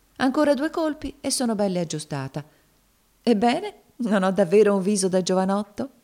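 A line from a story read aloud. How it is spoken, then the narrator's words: Laughing, embarrassed husband asking. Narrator (Italian): domandò il marito, ridendo e arrossendo al tempo stesso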